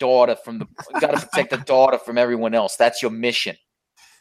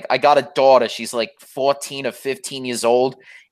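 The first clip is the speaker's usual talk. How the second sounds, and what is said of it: Put-on accent. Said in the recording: “You're doing like an accent”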